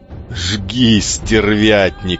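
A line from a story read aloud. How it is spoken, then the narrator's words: Laughing. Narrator (Russian): смеялся Иолай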